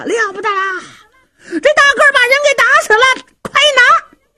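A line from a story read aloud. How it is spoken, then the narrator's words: Thugs shouting. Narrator (Chinese): 这些恶奴可就喊上了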